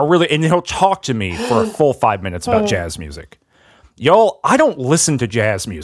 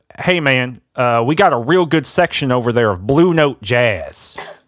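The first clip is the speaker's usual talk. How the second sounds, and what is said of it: Put-on Georgia Southern accent. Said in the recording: “he's got a real, like, Georgia, you know, kind of accent.”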